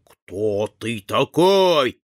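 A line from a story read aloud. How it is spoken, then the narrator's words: Growling. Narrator (Russian): зарычал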